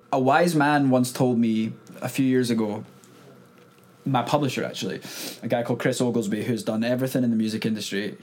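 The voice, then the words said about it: Scottish accent. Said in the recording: “you've got a Scottish accent”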